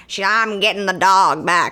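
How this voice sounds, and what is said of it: Poor imitation of a movie character. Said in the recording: “that was a terrible impression”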